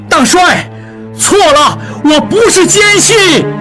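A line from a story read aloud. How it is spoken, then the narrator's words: Desperate shouting. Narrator (Chinese): 应季扑到窗口前大叫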